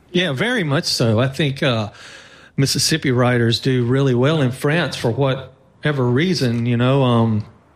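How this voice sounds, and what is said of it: Southern American drawl. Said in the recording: “hear that drawl ... the American South”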